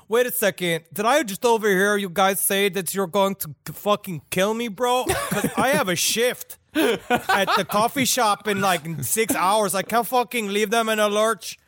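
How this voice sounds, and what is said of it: Put-on Norwegian Hispanic accent. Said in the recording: “I love your Norwegian Hispanic ... Spanish? ... Accent.”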